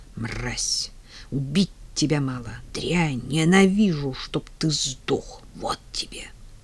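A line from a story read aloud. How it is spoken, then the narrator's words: Spiteful whisper. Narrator (Russian): во внезапно наступившей тишине я услыхала злобный шепот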